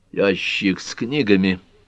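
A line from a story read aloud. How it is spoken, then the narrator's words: Mumble. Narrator (Russian): пробормотал Картер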